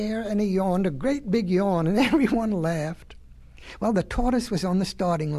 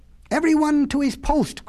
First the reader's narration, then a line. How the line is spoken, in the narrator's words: cried the monkey